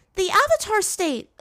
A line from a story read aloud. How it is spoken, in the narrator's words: Azula exclaimed, almost with a tinge of fear